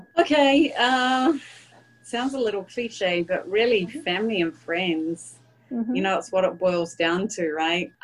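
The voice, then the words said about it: New Zealand accent. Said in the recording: “my New Zealand accent”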